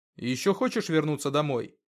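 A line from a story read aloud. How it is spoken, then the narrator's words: Restrained anger, slightly calmer. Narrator (Russian): Зло выдохнув и осознанно не дав себе злиться, Артем продолжил чуть спокойнее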